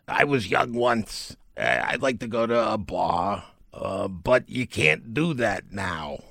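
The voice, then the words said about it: Impression of Dr. Fauci. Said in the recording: “That was a great impersonation.”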